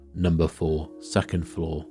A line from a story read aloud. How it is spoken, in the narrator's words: grunted out